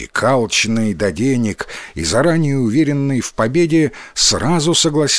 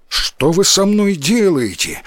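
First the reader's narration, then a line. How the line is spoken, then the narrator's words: Frightened shout. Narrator (Russian): испуганно закричал возчик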